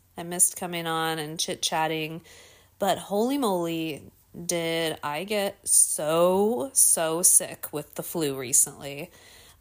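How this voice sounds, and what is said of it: Slightly raspy, hoarse voice. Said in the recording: “I don't know if you can still hear it in my voice a little bit ... my voice is still a little bit weird and like raspy”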